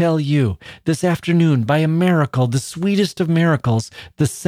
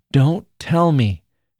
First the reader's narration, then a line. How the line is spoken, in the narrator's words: she tenderly pleaded